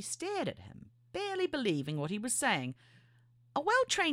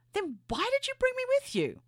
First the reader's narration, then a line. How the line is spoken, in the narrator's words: hardly believing what he was saying, before blurting out